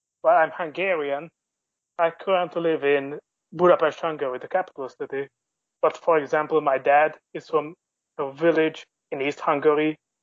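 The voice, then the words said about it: Central European accent. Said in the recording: “your accent hint that you're from Central Europe”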